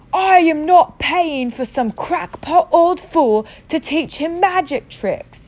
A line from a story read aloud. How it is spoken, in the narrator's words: yelled Uncle Vernon